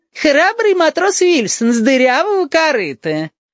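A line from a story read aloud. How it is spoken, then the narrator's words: Clownish voice. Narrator (Russian): сказал клоунским голосом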